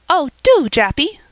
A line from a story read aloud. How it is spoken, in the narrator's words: cried Polly